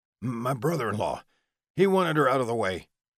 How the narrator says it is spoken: Billy suddenly blurted out

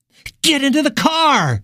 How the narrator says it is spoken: she screamed at the two men

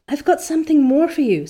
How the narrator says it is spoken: said Diana breathlessly

